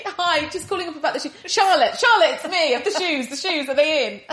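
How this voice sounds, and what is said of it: Bad put-on Italian accent. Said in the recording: “That's a terrible Italian accent”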